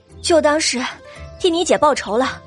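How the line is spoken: Breathless. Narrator (Chinese): 董小希气喘吁吁的说道

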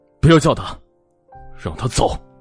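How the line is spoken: Roaring. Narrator (Chinese): 莫千行直接吼道

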